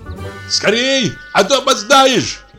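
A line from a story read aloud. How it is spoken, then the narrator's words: Shouted. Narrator (Russian): крикнул Михей Егорович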